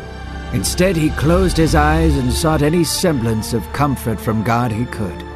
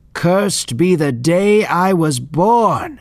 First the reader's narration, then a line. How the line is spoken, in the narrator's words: Job yelled